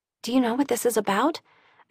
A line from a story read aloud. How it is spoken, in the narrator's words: I whispered to Carter